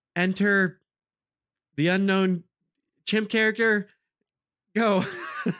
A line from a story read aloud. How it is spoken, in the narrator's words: you hear Gloria yells